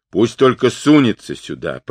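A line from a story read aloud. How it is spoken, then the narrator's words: Grumble. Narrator (Russian): пробурчал Бурибухе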